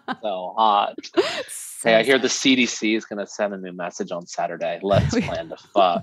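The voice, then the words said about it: Mock sexy, seductive voice. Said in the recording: “We always start talking about COVID in sexy voice.”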